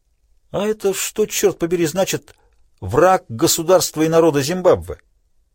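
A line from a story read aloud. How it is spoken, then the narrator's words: Heated exclamation. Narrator (Russian): воскликнул он с жаром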